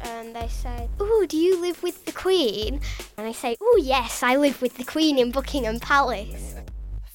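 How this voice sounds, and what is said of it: Posh English accent. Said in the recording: “I'm teased for having an accent. People call me posh”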